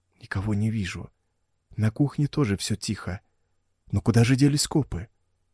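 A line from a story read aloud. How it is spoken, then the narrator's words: Whispering. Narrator (Russian): шепотом разговаривал Эдгар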